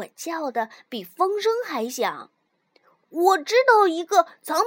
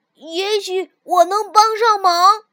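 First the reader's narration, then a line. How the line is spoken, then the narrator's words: Loud shout. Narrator (Chinese): 我大叫道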